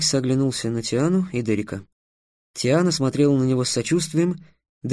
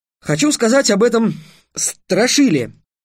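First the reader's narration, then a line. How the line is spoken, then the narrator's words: Forced, strained words. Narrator (Russian): выдавил из себя Трикс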